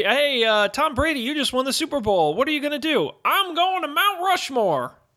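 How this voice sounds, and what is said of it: Imitates another person's voice. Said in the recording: “That's my Tom Brady impression. ... That didn't sound anything like Tom Brady.”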